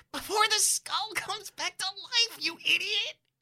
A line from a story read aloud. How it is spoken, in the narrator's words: Spite wheezes